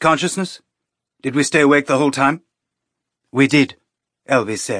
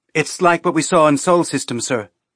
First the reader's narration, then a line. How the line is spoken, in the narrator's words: Jen said